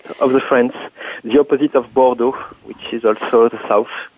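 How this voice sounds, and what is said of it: French accent. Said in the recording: “your accent is lovely... A, a, wonderful way of forming your words... it's just my accent... What part of France? Uh, south of France.”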